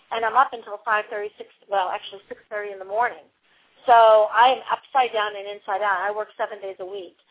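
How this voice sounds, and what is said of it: Tired, slightly off voice. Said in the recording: “my voice is a little bit off tonight, because I just don't get enough sleep”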